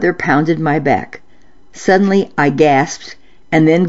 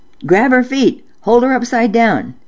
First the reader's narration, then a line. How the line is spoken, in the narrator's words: Mother yelled at Dad